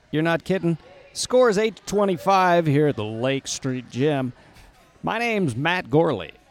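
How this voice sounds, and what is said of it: Put-on sports broadcaster voice. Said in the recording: “Your voice is changing a little bit. ... I feel like I need to up my broadcasting game.”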